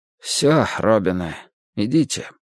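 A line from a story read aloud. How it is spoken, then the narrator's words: Hoarse, muffled. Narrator (Russian): Чиж сказал все так же сипловато, глухо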